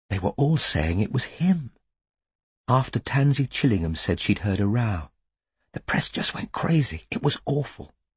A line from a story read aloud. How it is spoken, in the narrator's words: she said, in a voice barely louder than a whisper